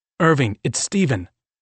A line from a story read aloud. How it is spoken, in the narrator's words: I replied